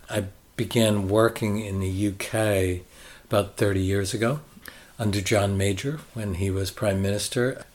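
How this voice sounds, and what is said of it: American accent. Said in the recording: “clearly you're not from Yorkshire ... You can't pick that up from my accent? ... I am American.”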